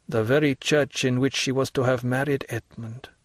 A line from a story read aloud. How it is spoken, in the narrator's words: murmured the priest